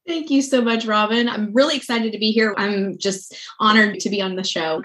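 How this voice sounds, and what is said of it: Southern US accent. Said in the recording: “you get to hear her Southern accent, which I love”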